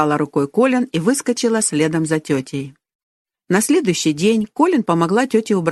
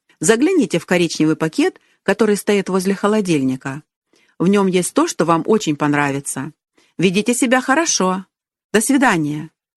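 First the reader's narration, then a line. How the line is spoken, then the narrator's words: Cheerful. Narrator (Russian): весело сказала тетя племянникам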